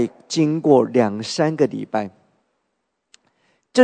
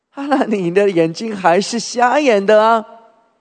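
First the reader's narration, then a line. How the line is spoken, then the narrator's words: Mocking. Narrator (Chinese): 人就取笑他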